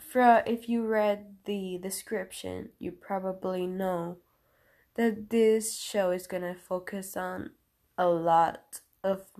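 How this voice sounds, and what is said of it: Sick-sounding voice. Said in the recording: “I sound weird. I'm just kind of sick.”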